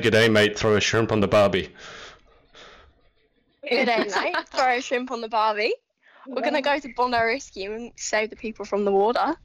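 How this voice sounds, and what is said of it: Put-on Australian accent. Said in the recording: “can you quickly do your Australian accent for us?”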